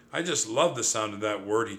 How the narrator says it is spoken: he chuckled

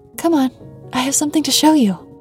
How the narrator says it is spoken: exclaimed excitedly

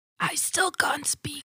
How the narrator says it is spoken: she whispers

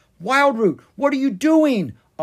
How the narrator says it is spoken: Oscar yelled

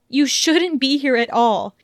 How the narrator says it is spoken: she yelled furiously as she felt tears slip down her cheeks

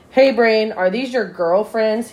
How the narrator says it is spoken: asks

